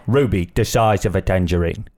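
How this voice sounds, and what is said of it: Deep imitation of another person's voice. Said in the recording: “I used to try to do a Michael Caine ... you gotta get deep ... I felt like Michael Caine was here.”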